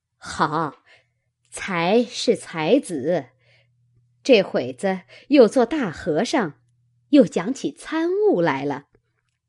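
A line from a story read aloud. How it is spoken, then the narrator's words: Laughing. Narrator (Chinese): 尤氏笑道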